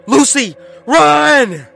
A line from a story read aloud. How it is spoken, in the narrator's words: Danny yelled